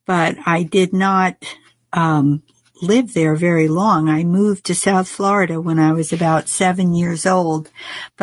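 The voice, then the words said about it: New Jersey accent. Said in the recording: “your New Jersey accent... that accent just won't leave you... Because it's such a strong”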